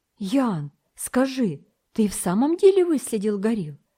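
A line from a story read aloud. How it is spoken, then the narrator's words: Excited exclamation. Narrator (Russian): волнуясь, воскликнул Вельмовский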